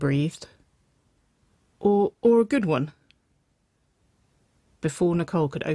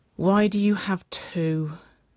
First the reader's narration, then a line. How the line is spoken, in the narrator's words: Waverley sighed